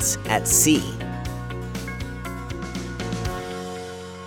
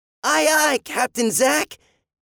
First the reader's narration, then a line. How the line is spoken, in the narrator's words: Andy shouted